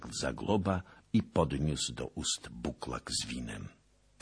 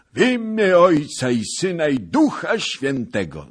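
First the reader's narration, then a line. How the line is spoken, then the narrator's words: Cried out. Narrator (Polish): zakrzyknął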